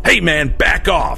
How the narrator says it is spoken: yelled

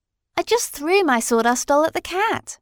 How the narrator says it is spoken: exclaimed Dorothy

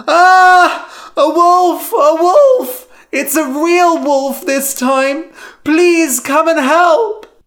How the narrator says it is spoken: Lyman screamed

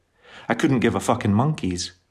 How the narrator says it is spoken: he said

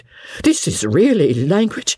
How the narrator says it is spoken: cried Sir Pitt

